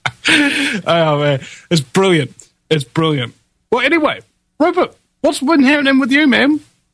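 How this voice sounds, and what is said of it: Speaks with a strong accent. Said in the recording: “Sometimes your accent gets me a little bit.”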